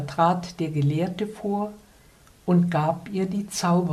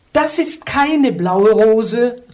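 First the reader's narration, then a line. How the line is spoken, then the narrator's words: Princess exclaiming. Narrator (German): rief die Prinzessin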